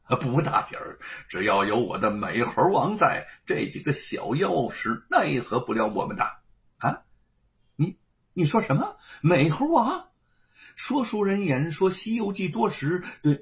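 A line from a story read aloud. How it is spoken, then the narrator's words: Laughing. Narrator (Chinese): 吴承恩 笑着说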